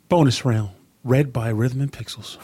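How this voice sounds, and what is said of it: Calm public-radio announcer voice. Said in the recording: “you do like a little NPR voice”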